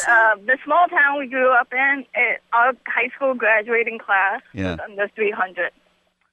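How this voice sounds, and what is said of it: Thick New York accent. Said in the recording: “you have the thickest, weirdest New York accent. ... Long Island accent. I can't really place it. It's on the island or it's in Brooklyn”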